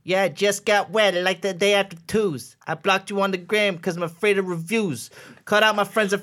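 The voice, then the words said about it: Imitates another person's voice, rapping. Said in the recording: “I'm going to do my chance the rapper rap ... here's my impression.”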